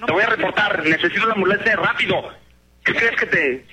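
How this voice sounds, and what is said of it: Angry shouting. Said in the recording (Spanish): “Sígueme gritando ... Grita hasta que te canses entonces, ya que te controles”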